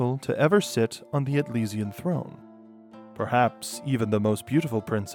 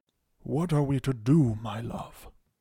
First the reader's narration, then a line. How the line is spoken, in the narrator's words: asked